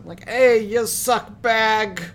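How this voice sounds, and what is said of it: Put-on Boston accent. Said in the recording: “the way that she would say, like, suck bag in her Boston accent.”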